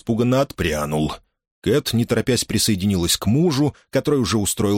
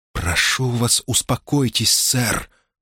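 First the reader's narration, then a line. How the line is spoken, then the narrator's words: Whispered. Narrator (Russian): прошептала Кэт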